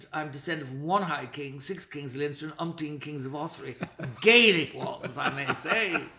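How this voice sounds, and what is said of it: Irish Protestant accent. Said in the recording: “Despite my accent, which has been commented upon a great deal ... they decided eventually it was a Protestant accent.”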